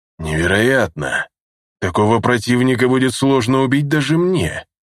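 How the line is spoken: Amazed exhale. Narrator (Russian): изумленно выдохнул Нигим

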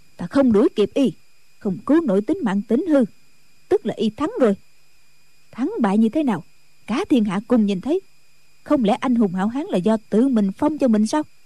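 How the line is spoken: Angry snort. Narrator (Vietnamese): Diệt Tuyệt Sư Thái hừ một tiếng, giận dữ nói

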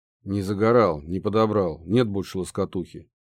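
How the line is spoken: Grumble. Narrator (Russian): буркнул я

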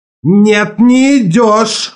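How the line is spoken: Yelling. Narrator (Russian): завопил Келли

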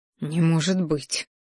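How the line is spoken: Shocked breath. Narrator (Russian): выдохнул я, белее лицом

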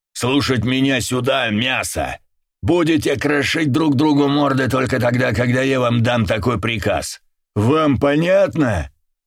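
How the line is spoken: Bellowing at full voice. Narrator (Russian): гаркнул во все горло

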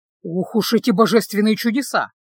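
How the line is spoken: Grumbling. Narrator (Russian): проворчал Люк

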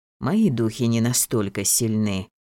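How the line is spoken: Old man's regretful sigh. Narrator (Russian): с искренним сожалением вздохнул старик

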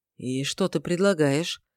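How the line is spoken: Unexpectedly even tone. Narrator (Russian): неожиданно ровным тоном отозвался Шамит

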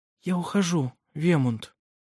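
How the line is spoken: Quiet. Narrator (Russian): тихо сказала она

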